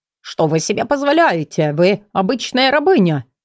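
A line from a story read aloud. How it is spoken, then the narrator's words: Indignant rapid chatter. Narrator (Russian): Возмущенно тараторил Эвиард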